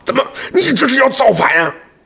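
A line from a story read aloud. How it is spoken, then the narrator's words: Calmly. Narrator (Chinese): 可二蛋心平气和地说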